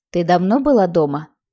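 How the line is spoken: Plain. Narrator (Russian): спросил Андрей

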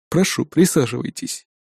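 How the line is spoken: Calm. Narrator (Russian): спокойно произнес он

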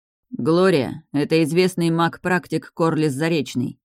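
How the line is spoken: Icy introduction. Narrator (Russian): ледяным тоном представил мне мага Рейдалир

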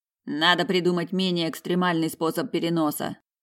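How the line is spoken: Displeased grumbling. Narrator (Russian): пробурчал близнец, недовольно хмурясь

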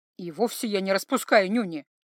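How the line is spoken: Defensive mumble. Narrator (Russian): только и смог на такую отповедь пробормотать Златко

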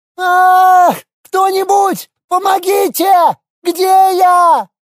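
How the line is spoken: Woman screaming. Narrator (Russian): Завопила какая-то женщина

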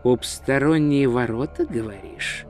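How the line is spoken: Muttering. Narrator (Russian): пробормотал он

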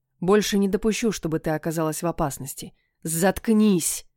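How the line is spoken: Hoarse, agitated rasp. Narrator (Russian): прохрипела девушка, пытаясь заглушить удары собственного сердца

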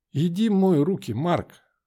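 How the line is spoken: Soft. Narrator (Russian): мягко сказала она

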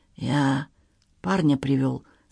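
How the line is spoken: Whisper. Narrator (Russian): сказал он шепотом

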